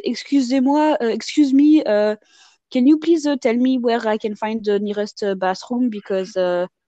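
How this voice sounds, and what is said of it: Exaggerated heavy French accent. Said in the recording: “I can really like make it more pronounced in terms of my French accent ... I would just make it sound really bad”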